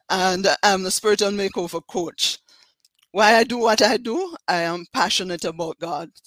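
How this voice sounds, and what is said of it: Jamaican accent. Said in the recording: “I'm from Jamaica, as you can tell from my accent.”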